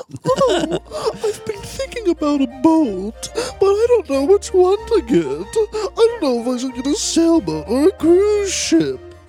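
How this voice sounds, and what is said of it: Impersonating a very rich person. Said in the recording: “my impersonation of a very, very, very rich person”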